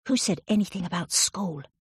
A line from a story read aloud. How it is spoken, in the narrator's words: whispered the kid